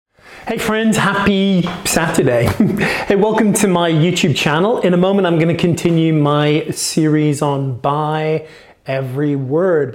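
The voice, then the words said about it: British accent. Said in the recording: “I am an Anglo-American. We're a small demographic, but we have a cute accent. ... I'm British, live here in the United States”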